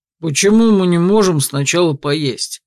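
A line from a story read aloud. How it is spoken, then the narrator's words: Grumbling. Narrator (Russian): Ворчал тот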